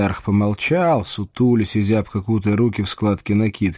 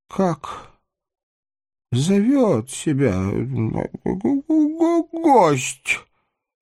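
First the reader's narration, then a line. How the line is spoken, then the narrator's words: Silent mouthed breath. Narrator (Russian): Одними губами выдохнул брат Манкума, забыв о приличиях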